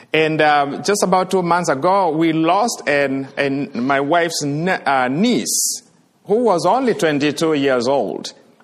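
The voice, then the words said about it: Kenyan accent. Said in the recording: “at least you can tell now from my accent, I am from Kenya”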